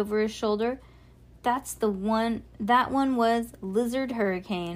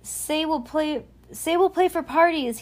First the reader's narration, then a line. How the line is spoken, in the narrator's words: he yelled after them